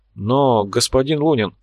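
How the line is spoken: Bewildered. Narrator (Russian): растерянно произнес Корж

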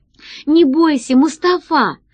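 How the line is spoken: Exclaiming. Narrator (Russian): воскликнула Алиса

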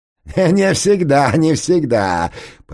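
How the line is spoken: Triumphant laugh. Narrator (Russian): победоносно рассмеялся породистый

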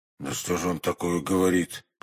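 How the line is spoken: Mutter. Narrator (Russian): пробормотал Портос

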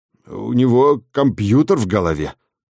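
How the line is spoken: Confused mutter. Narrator (Russian): растерянно пробормотал завлап

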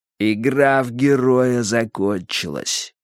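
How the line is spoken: Through gritted teeth. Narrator (Russian): процедил Джонстон

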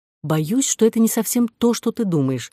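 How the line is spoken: Plain. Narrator (Russian): сказала Кора

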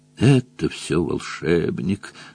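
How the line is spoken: Weak moan. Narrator (Russian): слабо стонал Джон Том

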